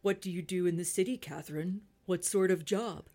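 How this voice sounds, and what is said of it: Deep put-on male character voice. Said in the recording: “She'll be my falsetto, and I'll try to go deep voice”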